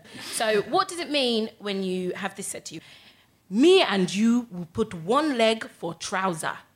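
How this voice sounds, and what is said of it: Put-on Nigerian accent. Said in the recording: “this is my parents from the River State in Nigeria, so I have to do the accent.”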